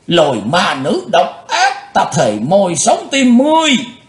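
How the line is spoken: Roar. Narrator (Vietnamese): Hắn gầm lên

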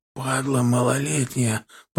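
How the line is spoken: Hoarse rasp. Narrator (Russian): прохрипел мужик

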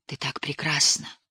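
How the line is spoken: Whisper. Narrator (Russian): прошептал он

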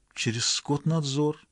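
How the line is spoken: Barely audible. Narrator (Russian): чуть слышно проговорила она

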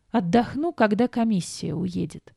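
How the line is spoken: Weary moan. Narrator (Russian): простонала я

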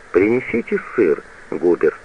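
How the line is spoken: Very calm reminder. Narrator (Russian): напоминает барыня, очень спокойно

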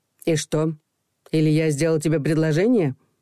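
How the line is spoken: Stern question. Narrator (Russian): строго спросила Ирина

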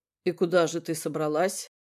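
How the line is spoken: Growled close to her neck. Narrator (Russian): прорычал он ей в шею

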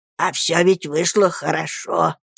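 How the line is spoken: Quiet low drone. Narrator (Russian): тихо прогудел он

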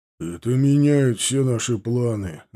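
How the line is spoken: Sad grumble. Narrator (Russian): грустно пробурчал Титов

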